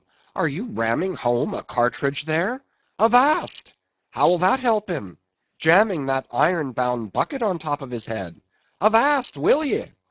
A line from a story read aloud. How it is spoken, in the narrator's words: cried Stubb